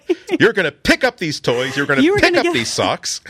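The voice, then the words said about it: Scolding mom voice. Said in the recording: “Mom voice”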